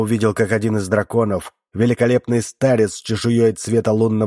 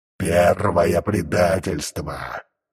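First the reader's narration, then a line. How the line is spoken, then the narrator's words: Growling. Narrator (Russian): прорычал Вольтар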